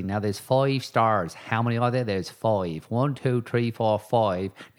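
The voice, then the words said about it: Silly put-on accent. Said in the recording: “this crazy, silly accent I'm trying to do right now”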